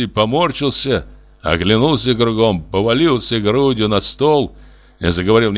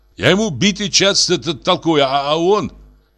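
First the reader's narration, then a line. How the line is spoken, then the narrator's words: Exclaiming with mouth full. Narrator (Russian): Сеня, не проживав кусок, воскликнул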